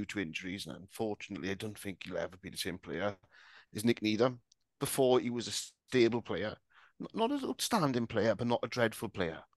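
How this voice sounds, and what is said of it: Strong accent. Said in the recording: “My strong accent”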